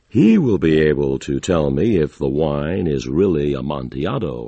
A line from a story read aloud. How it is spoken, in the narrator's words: I said